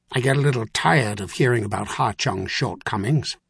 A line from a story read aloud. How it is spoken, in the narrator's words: the Grand Inquisitor said sharply